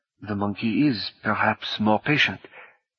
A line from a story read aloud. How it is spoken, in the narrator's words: Martine said quietly